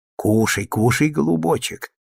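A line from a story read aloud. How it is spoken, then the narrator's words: Whisper. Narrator (Russian): шептала Петровна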